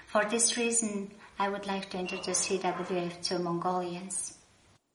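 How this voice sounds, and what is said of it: Foreign accent, somewhat hard to understand. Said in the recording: “Some of the accent is a little bit hard to understand”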